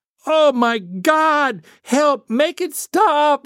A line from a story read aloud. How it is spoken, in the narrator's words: we screamed with the same conviction